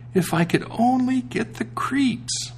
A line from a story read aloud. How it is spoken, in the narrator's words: said quite sadly